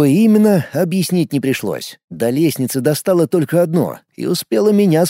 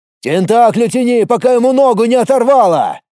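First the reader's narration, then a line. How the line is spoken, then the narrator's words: Yelling. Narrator (Russian): заорал он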